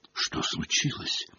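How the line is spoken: Whispered question. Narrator (Russian): спросила она шепотом у Дамблдора

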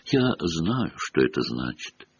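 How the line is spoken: Quiet speech. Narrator (Russian): тихо проговорила она

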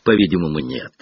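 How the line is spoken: Sighing. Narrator (Russian): вздохнул

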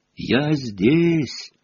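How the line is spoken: Muffled distant voice. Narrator (Russian): Голос Рона глухо донесся с другой стороны завала

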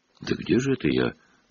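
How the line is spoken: Whisper. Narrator (Russian): прошептал Гарри

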